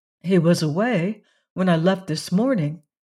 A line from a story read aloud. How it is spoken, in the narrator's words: said Valency